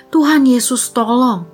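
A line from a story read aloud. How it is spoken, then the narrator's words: Terrified inner cry. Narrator (Indonesian): Aku sangat ketakutan dan berseru di dalam hati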